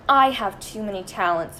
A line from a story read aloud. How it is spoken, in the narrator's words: Margaret groaned